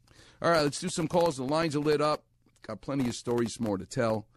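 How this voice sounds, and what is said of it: New York accent. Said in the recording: “He talks like me. I talk like him. ... That's a New York accent. That's a Far Rockaway accent.”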